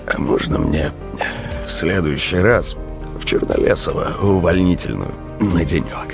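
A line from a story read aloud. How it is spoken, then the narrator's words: Muffled whisper. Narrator (Russian): глухо прошептал Велес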